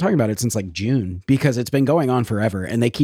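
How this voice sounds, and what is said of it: Usual voice. Nothing is said of it.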